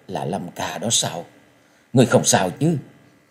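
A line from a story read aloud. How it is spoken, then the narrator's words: Trembling voice. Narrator (Vietnamese): giọng run run nói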